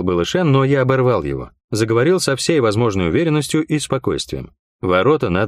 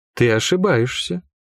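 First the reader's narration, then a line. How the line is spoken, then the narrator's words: Unexpectedly soft. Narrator (Russian): неожиданно мягко сказала Лайон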